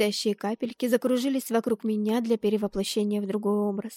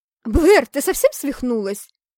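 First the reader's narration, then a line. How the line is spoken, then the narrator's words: Surprised female yell. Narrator (Russian): Завопила удивленно потерпевшая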